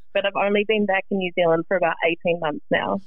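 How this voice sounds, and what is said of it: New Zealand accent. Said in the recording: “is it a Kiwi accent? ... I do, yes.”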